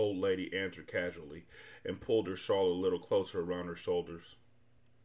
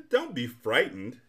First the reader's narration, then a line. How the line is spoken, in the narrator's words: she laughed